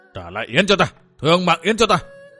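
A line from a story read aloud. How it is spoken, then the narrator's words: Old man shouting. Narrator (Vietnamese): Lão hét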